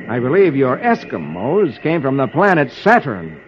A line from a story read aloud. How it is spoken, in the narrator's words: Flash says grimly